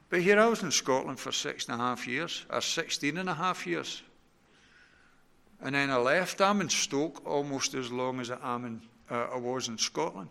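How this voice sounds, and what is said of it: Strong Scottish accent. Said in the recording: “I've still got a reasonably strong accent ... folks do think I've still got a strong Scots accent.”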